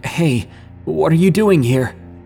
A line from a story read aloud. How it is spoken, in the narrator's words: E snapped out of the daze and shakily said